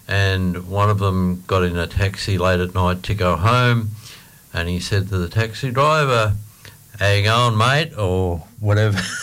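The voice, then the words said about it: Australian accent. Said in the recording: “I've got an Aussie accent, not an English accent.”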